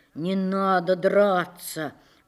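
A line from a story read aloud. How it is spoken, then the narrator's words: Softly said. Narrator (Russian): уже мягко сказал он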